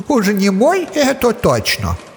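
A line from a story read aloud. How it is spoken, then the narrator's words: Exclamation. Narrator (Russian): Воскликнул Дроник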